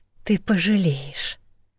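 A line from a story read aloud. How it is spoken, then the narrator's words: Hissing dragoness. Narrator (Russian): прошипела драконесса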